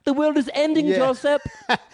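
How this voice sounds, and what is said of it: Jo Koy's Filipino mom accent. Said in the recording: “Joe somehow finds a way to do a Filipino accent”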